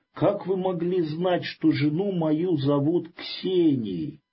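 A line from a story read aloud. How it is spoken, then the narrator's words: Startled frightened cry. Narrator (Russian): Чиновник в испуге и удивлении вскрикнул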